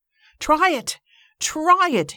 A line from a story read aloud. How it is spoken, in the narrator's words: shouted